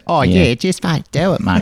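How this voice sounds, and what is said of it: Sultry put-on Kiwi accent. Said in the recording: “With a deeply sexual accent.”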